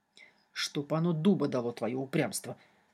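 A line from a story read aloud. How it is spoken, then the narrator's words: Demon muttering through teeth. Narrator (Russian): сквозь зубы пробормотал демон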